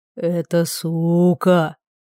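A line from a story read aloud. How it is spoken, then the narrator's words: Languid voice. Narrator (Russian): томным голосом произнес Рекс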